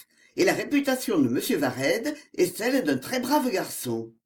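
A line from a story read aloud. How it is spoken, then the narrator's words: Curt reply. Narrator (French): répondit Prémont d'un ton bref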